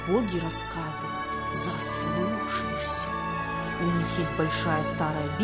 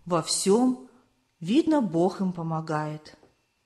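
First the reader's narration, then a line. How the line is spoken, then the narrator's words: Old woman's pensive sigh. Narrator (Russian): вздохнула задумчиво старушка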